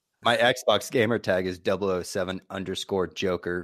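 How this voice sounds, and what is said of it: Usual voice. Nothing is said of it.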